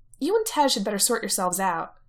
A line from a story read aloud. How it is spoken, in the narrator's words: she says sharply